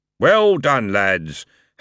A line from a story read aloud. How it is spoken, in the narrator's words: Harry boomed